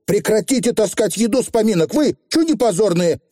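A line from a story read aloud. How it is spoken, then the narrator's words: Barked shout. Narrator (Russian): гаркнула Тиффани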